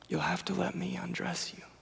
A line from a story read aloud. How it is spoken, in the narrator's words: he responds so gently